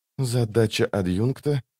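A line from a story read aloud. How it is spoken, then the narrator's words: Quiet speech. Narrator (Russian): тихо проговорила Лорн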